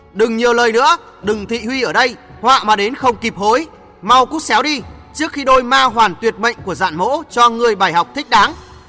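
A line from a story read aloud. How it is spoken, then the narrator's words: Snorting, sharp and loud. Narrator (Vietnamese): Giản Dị Cung hừ nhạt một tiếng, đanh giọng lớn tiếng nói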